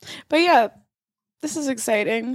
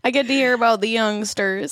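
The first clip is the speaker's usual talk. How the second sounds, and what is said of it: Weird put-on southern accent. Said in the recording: “I always slip into a weird southern accent.”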